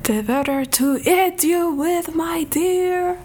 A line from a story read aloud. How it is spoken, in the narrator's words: roared the wolf